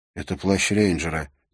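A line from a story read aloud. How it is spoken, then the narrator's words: Quiet, barely restrained anger. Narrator (Russian): тихо ответил Уилл, с трудом сдерживая закипавший гнев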